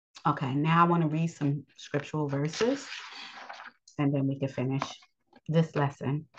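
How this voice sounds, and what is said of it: Scratchy, strained voice. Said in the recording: “my voice is limited. ... today is one of those days that it's kind of scratchy.”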